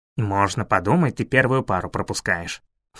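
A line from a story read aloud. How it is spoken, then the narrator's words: Snorting. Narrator (Russian): фыркнул Фейри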